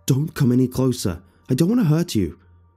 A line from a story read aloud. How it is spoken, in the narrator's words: yelled out as loudly and powerful as I could, even though at this point I was scared witless